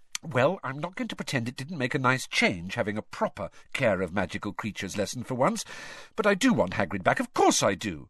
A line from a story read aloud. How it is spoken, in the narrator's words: Hermione added hastily, quailing under Harry's furious stare